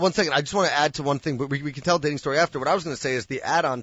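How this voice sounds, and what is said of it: Usual voice. Nothing is said of it.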